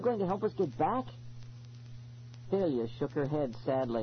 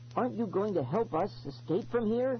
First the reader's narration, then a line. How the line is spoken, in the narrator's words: I pleaded